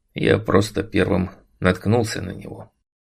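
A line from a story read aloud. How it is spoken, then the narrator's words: Embarrassed muttering. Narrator (Russian): пробормотал я смущенно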